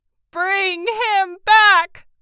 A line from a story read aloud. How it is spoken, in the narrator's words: cried the old woman